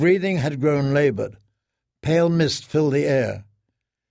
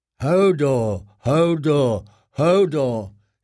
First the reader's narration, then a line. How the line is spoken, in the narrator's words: he grumbled loudly to drown out Bran's complaints